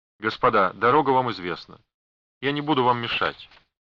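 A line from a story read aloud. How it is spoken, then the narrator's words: Cold. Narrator (Russian): она холодно проговорила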